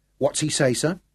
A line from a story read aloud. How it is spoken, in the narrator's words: Eccles asked